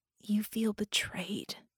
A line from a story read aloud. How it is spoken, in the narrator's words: she said quietly